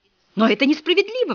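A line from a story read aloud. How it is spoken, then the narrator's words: Exclamation. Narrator (Russian): воскликнула Дверь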